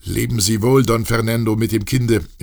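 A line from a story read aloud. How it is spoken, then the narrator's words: Called out. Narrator (German): rief Josephe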